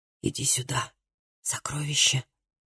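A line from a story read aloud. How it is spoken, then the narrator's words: Whisper. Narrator (Russian): прошептал он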